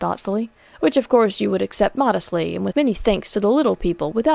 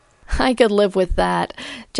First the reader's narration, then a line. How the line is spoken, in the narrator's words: Jessie laughed